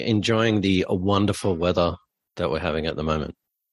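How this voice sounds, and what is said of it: Sarcastic tone. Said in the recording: “90% of the time you're sarcastic ... I am being sarcastic. It's cold and rainy here.”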